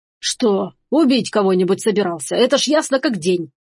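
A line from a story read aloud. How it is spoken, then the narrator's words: Grumbling. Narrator (Russian): проворчал Ламбер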